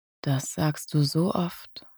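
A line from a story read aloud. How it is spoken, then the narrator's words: Low murmur. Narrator (German): raunte er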